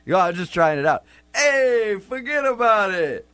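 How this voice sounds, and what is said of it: Unconvincing attempted New York accent. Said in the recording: “is that your New York accent? ... That's not a New York accent.”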